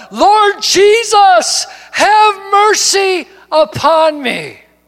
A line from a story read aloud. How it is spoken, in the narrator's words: he cried out